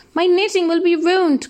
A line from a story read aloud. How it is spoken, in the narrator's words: cried the shepherd